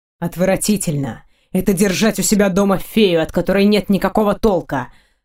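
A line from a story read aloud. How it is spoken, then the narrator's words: Furious growl. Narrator (Russian): Прорычал он, от него веет жаром вперемешку с яростью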